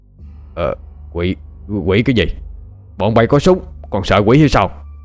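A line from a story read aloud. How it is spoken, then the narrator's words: Lowered voice. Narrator (Vietnamese): Gã lính cũng hạ giọng kể cho Bình nghe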